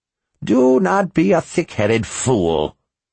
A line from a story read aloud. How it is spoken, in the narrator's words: she scoffed